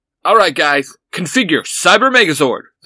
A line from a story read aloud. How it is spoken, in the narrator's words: the Red Ranger shouts